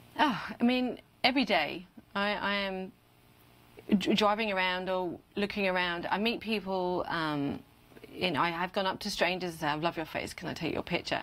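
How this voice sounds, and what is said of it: British accent. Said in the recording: “being a Brit in America ... The accent, it makes me sound official”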